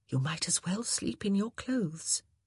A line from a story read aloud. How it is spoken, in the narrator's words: she said softly